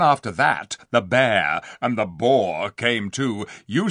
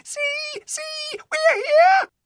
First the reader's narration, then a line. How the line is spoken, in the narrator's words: little animals squealing with joy and saying